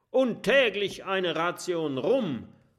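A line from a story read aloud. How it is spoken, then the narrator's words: Called out. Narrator (German): ruft Kabeljaukurt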